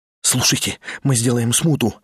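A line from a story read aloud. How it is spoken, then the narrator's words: Fast delirious muttering. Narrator (Russian): бормотал тот быстро и почти как в бреду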